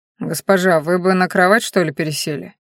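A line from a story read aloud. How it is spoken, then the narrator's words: Awkward embarrassed guard mumbling. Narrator (Russian): неловко пробормотал охранник, смущенный собственной заботливостью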